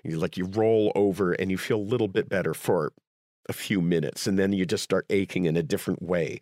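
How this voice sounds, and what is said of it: Sick, funny-sounding voice. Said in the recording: “I was just really super fucking sick. And this is why my voice sounds funny.”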